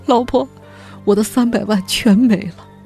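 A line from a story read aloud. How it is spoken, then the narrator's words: Tearful complaint over phone. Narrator (Chinese): 柳志打来电话向他哭诉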